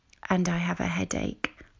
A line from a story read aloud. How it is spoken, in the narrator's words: I whispered